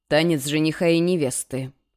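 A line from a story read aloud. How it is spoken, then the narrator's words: Wry snort. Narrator (Russian): хмыкнул он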